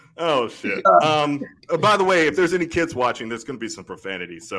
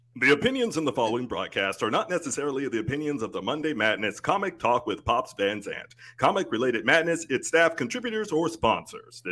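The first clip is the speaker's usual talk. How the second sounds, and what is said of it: Radio announcer voice. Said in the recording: “in my radio voice”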